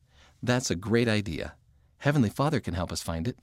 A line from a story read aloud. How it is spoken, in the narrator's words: said Mom